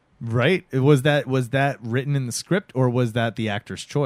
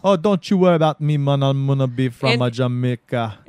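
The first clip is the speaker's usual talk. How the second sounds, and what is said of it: Put-on Jamaican accent. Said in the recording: “made the black guy have a Jamaican accent ... a Jamaican accent”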